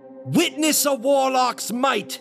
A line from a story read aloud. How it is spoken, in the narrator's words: screams